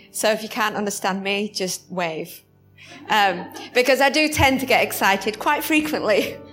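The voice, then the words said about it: Strong British accent. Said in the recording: “When I get excited, my accent gets stronger. ... You're all just getting used to the British.”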